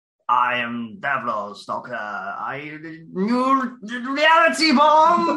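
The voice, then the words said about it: Imitates the Davros character's voice. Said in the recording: “your Davros impression”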